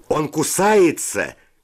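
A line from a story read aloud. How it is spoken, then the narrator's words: Shout. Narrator (Russian): крикнул кто-то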